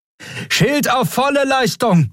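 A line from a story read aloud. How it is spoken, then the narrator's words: Alarmed call with horn. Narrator (German): rief sie, begleitet von einem alarmierten Tuten ihres Horns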